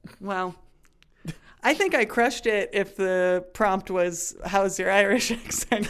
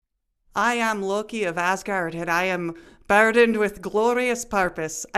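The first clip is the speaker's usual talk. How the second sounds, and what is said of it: Attempted Scottish accent sounding Irish. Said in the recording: “I think Loki would have been better in a Scottish accent ... I went very Irish. ... Irish. ... There's a lot of R's in there. ... Loki is kind of fun to try and say with a Scottish accent”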